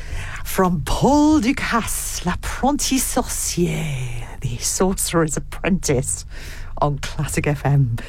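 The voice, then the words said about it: Exaggerated French accent. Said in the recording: “Too much French accent there.”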